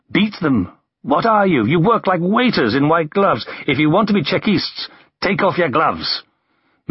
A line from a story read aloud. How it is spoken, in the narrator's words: He shouted at Ignatieff